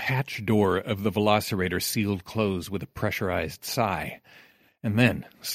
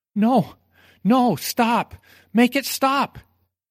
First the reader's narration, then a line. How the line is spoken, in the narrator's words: They were terrible shrieks